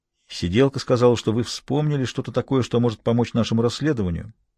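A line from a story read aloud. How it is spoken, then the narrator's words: Neutral tone. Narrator (Russian): сказал он самым нейтральным тоном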